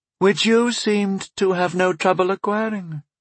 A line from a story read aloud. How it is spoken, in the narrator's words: Lord Aretas observed coolly